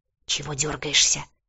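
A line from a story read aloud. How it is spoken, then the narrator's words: Hiss. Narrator (Russian): зашипела Бьорна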